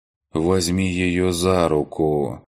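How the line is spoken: Dry lifeless old voice. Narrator (Russian): сухим безжизненным голосом произнес старик

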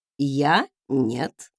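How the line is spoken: Snorting. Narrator (Russian): хмыкнул он

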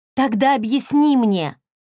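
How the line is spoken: Sudden shout, face hidden. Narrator (Russian): вдруг выкрикнула Хейли, но головы не подняла, скрывая лицо за волосами

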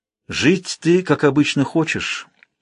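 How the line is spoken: Calm. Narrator (Russian): спокойно сообщил отшельник

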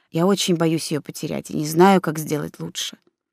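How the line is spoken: Quiet. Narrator (Russian): тихо добавил

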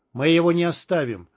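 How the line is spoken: Icy tone. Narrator (Russian): ледяным тоном проговорил варяг

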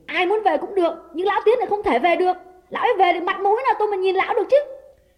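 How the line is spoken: Shouted. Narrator (Vietnamese): Đào quát lên

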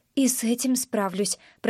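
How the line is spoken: Quiet. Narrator (Russian): произношу тихо

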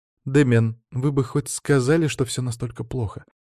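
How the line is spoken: Dismayed sigh. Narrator (Russian): вздохнула Елена, наконец-то увидев мое родовое имение

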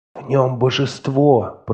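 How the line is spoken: Whisper. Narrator (Russian): прошептала она мне

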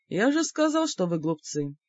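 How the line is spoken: Condescending snort. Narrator (Russian): снисходительно хмыкнул господин Георс

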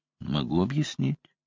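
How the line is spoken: Calm reply. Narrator (Russian): ответил я спокойно

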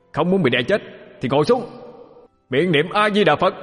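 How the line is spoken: Loud forceful shout. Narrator (Vietnamese): Vụ vận lực mà hét lớn

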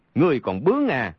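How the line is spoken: Angry. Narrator (Vietnamese): Trượt Xích tức giận nói

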